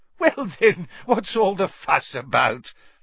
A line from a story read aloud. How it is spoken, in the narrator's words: laughed Fudge airily